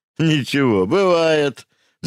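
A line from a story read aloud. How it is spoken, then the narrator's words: Laughing. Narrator (Russian): засмеялся Субботин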